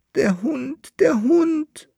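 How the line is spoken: Traveler wailing. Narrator (German): jammerte der Bärl-Landfahrer

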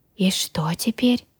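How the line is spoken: Whispered. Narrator (Russian): шепнул Грю

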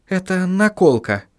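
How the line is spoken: Quiet explanation. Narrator (Russian): тихо пояснила Сахариса

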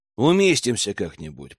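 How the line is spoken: Muttered to himself. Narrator (Russian): пробормотал Герман скорее для себя

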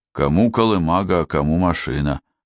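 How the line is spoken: Driver grumbling. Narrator (Russian): проворчал водитель

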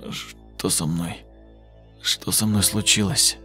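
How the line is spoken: Strained wheeze. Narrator (Russian): Через силу прохрипел Юра

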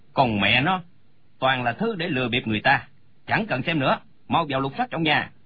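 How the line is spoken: Angry voice. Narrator (Vietnamese): Chu Mục giận dữ nói

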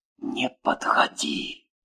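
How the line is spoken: Whispered. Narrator (Russian): прошептала Маша

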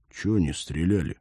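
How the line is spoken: Quiet question. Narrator (Russian): сержант негромко спросил

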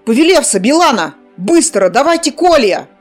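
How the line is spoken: Shouted out. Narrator (Russian): выкрикнул Кир

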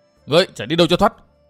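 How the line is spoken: Loud shout. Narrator (Vietnamese): Chàng quát lớn

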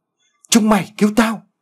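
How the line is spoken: Strained desperate loud shout. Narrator (Vietnamese): thấy nhóm của Tùng không ai ra cứu mình thì nó gần giọng lên hét lớn

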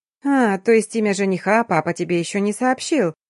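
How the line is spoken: Purring, disguised voice. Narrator (Russian): Исказив голос, мурлыкнула Ясмин

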